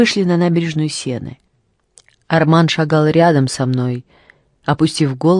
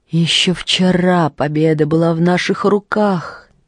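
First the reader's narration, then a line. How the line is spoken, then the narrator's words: Sighed. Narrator (Russian): вздохнул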